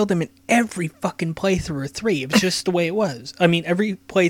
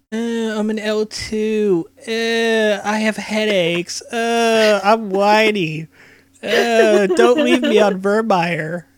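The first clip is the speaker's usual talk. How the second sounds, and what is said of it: Whiny character voice impression. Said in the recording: “my Caden impression ... He's a super whiny character”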